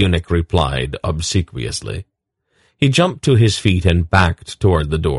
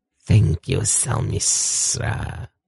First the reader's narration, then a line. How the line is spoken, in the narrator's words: Isa purred